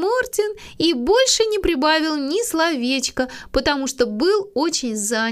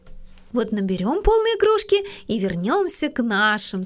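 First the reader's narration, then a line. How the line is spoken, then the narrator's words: Plain. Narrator (Russian): сказала Мина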